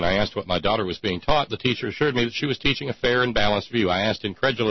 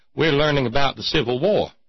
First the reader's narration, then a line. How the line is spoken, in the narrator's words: The teacher cheerfully responded